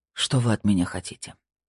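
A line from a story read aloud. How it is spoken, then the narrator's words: Asked in a feeble voice. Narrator (Russian): бессильным голосом спросил Александр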